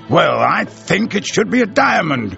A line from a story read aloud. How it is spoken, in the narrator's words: retorted the colonel in an annoyed tone of voice